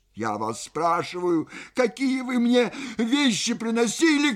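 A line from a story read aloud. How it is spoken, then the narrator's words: Shouted. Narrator (Russian): крикнула Паша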